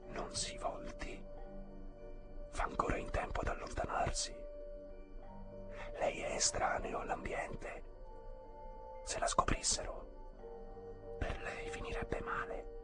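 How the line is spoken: Woman whispering from behind. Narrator (Italian): una voce di donna sussurrò alle sue spalle

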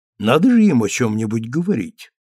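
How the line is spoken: Calm reply. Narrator (Russian): ответила спокойно леди Освиль

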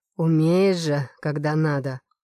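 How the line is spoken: Purring. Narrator (Russian): Мурлыкает

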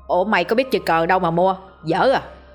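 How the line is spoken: Teasing chuckle. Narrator (Vietnamese): Dậu lên tiếng, nó cười cười

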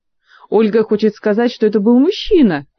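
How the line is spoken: Joyful interruption. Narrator (Russian): радостно перебил

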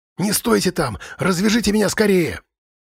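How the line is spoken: Sharp whisper. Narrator (Russian): Резким шепотом произнесла Сьюзен

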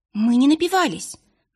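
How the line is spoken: Exclamation. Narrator (Russian): воскликнула вторая студентка

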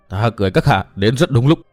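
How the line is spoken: Trembling with rage. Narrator (Vietnamese): Tư Mã Minh chứa đầy nguyện độc, chàng cất giọng run run vì tức giận

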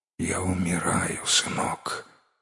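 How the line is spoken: Faint dying whisper. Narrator (Russian): еле шевеля губами прошептал Чу

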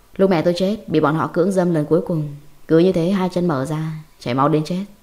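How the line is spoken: Eerie smiling. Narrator (Vietnamese): Hắn bắt đầu nở nụ cười đáng sợ, mỉm cười

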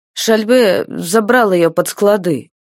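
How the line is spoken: Uncertain. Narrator (Russian): произнес кто-то неуверенно

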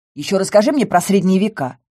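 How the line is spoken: Snorted. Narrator (Russian): фыркнула я

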